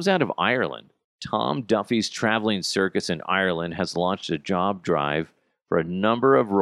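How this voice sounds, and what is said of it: Usual voice. Nothing is said of it.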